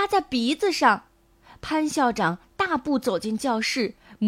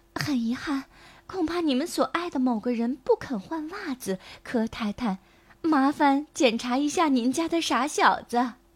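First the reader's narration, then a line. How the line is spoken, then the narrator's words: Soft, quiet voice. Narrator (Chinese): 邻居史小姐轻声对阿西的父母说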